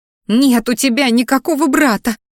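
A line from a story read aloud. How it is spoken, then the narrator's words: Muffled sob. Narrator (Russian): всхлипнула Ди, закрывая рот рукой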